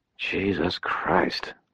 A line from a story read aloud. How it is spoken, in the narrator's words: Butters muttered